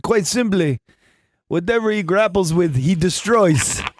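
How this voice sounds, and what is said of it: Impression of a Russian trainer. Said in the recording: “Pretty good impression.”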